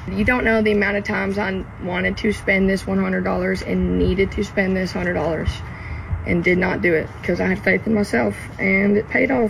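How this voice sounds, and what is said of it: Southern US accent. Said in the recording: “Love that Southern accent. Hailing from Hope Hole, Alabama.”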